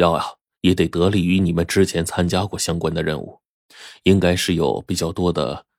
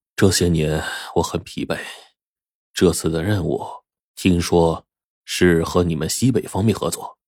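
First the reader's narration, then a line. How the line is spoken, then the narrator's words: Weary sigh. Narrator (Chinese): 火烈叹了口气，这才接着说道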